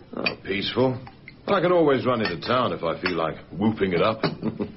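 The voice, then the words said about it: South African accent. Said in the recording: “That accent. South African, isn't it?”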